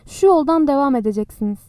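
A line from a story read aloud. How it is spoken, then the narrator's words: Plain. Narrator (Turkish): dedi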